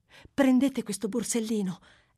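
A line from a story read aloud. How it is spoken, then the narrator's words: Young lady's exclamation. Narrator (Italian): esclamò la signorina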